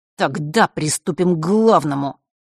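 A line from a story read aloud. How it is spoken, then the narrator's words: Through clenched teeth. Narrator (Russian): процедил Марк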